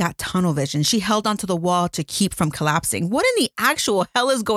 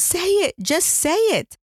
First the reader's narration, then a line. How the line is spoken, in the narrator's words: came out as a whisper